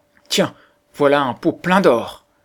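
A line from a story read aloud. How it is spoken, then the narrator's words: Exclaiming together. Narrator (French): s'écrièrent-ils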